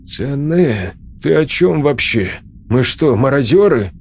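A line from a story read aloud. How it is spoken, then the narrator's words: Irritated exhale. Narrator (Russian): Сергей раздраженно выдохнул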